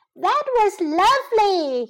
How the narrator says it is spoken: he cried

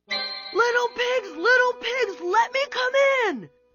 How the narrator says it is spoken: yelled the wolf

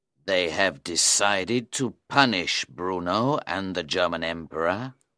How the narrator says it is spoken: Faustus replied solemnly

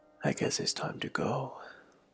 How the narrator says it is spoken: said in a soft voice

